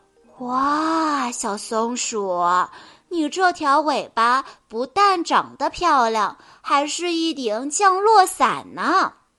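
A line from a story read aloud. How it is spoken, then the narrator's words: Admiring. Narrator (Chinese): 小猴子赞叹地说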